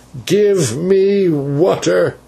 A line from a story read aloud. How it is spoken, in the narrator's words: he cried